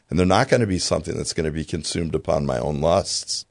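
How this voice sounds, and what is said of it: Strained voice giving out. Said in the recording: “my voice is starting to give out here. Pray for a new voice.”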